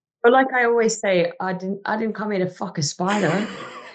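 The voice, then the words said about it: Attempted Australian accent. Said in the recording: “you did attempt an Aussie accent”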